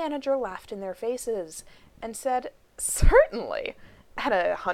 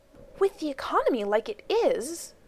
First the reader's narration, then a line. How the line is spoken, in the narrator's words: Rodney hissed at John pleadingly